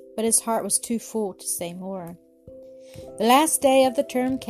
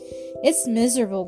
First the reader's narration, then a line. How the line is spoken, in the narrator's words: groaned poor Bertie